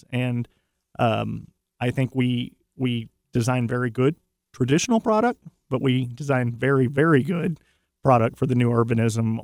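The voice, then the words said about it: Texas accent. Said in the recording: “I grew up in Texas, as your listeners can probably tell from the accent”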